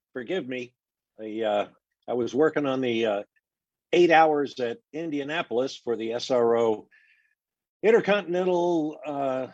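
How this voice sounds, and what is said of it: Hoarse voice. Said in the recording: “I'm a little hoarse.”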